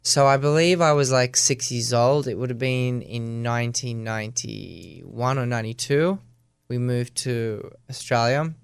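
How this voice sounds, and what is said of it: Australian accent. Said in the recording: “Your accent's very Australian, though.”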